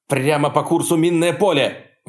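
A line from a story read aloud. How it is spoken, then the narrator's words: Shouted. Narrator (Russian): выкрикнул Десота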